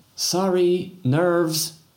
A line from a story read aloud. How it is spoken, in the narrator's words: shouted Pauline